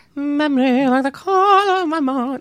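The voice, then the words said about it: Imitates a famous singer's voice. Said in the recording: “a little Barbra Streisand ... that was my impression”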